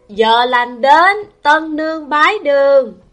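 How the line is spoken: Raised ceremonial voice. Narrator (Vietnamese): Tư Lễ cất cao giọng

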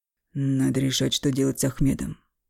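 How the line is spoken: Muffled, flat voice. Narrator (Russian): глухо сказал Эмиль

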